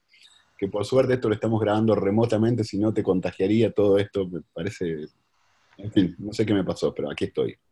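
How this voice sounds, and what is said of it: Deep hoarse sick voice. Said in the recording (Spanish): “Con una voz de locutor de radio... me puse voz así de locutor de... No, no, tengo una gripe, una tos, un virus”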